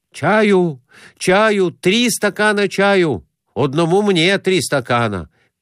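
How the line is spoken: Shouting. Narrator (Russian): кричал Конурин слуге

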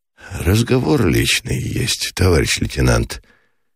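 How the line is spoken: Lazy, reluctant. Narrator (Russian): лениво, без особой охоты проговорил Меженин

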